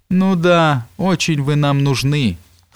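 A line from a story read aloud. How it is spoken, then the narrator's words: Hoarse woman's reply. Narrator (Russian): хриплым голосом отозвалась баба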